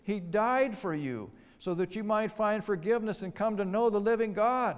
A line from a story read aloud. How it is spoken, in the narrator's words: pleaded